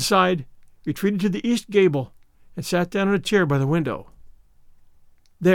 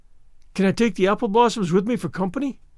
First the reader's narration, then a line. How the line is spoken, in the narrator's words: pleaded Anne